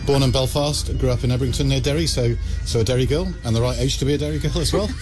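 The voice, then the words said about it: English accent. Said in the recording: “you're listening to me with an English accent here”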